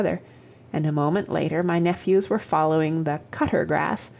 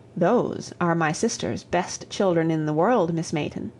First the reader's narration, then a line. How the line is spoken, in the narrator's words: said I